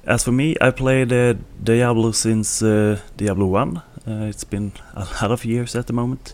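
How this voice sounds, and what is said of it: Swedish accent. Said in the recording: “my Swedish accent”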